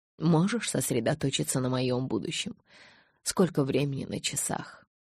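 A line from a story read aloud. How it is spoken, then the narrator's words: Sighing. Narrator (Russian): Элис вздохнула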